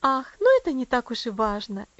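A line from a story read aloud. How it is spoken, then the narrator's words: Cheerful. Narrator (Russian): весело заметила миссис Мюррей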